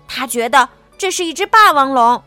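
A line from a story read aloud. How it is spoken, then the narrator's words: Angry shout. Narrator (Chinese): 小智生气的喊道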